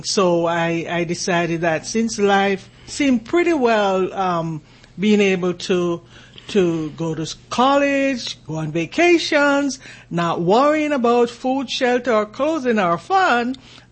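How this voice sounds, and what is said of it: Jamaican accent. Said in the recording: “this accent that you hear here is from that country called Jamaica.”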